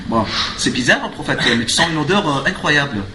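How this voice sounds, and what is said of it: Put-on Parisian French accent. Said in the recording (French): “elle fait avec son accent de parisien, là, tu sais, parisienne de”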